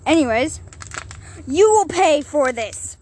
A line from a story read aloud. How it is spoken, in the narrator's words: Ruby Star yelled with tears in her eyes